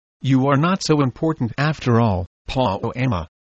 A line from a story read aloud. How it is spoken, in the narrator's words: he said